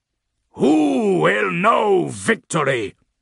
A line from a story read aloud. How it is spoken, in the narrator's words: Morbus roared